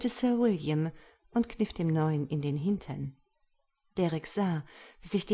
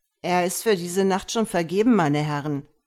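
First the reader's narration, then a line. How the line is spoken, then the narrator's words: Disguised voice call. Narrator (German): rief Derek mit verstellter Stimme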